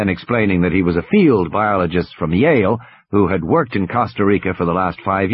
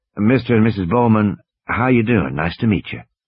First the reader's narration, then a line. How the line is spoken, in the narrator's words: saying in a soft southern accent